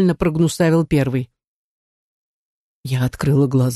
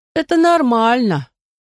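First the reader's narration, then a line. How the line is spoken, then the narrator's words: Nasal voice. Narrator (Russian): ответил второй гнусавый голос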